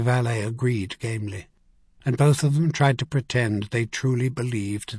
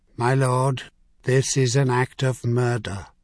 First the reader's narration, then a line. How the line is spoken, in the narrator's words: Lewis Gardner said flatly